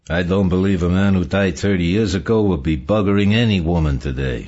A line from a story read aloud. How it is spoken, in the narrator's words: Sol said dryly